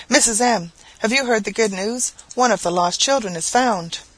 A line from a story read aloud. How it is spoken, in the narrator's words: a woman whose husband farmed our farm on shares, came running in quite out of breath and cried out